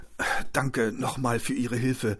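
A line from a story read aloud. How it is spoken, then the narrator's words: Croaking voice. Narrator (German): krächzte Hendrik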